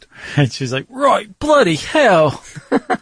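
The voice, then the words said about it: Cartoonish put-on British accent. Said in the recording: “tell me how good my British accent is ... cartoonish and stereotypical ... really good cartoonish, okay. stereotypical versions of accents”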